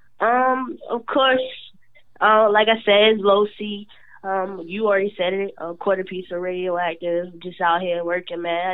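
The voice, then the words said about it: Rough voice from a cold. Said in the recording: “I'm just getting a little crazy cold. So I know I sound real tough over here. ... You got that little girl voice on right here.”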